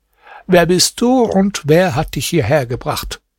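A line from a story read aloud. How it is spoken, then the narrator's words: Plain. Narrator (German): fragte sie Hasan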